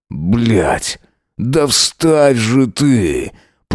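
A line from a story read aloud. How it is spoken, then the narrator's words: Growl. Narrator (Russian): прорычал Джек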